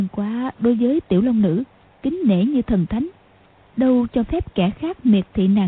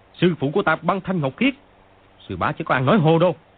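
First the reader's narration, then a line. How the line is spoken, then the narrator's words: Angrier shout. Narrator (Vietnamese): Chàng càng tức giận, quát lên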